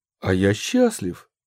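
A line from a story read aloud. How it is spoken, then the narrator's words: Sudden joyful exclamation. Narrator (Russian): вдруг воскликнул Савич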